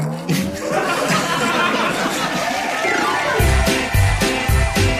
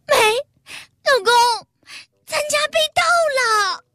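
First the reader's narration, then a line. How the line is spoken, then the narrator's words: Tearful complaint. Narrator (Chinese): 我老婆……向我哭诉道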